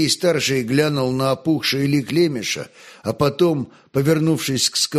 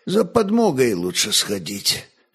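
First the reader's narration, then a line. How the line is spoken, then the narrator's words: Tired voice. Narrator (Russian): все тем же усталым голосом молвил огнещанин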